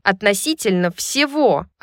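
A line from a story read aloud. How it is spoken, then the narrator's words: Snapping. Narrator (Russian): Огрызнулась Сабина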